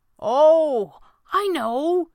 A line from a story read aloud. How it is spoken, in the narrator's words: he said excitedly, feeling encouraged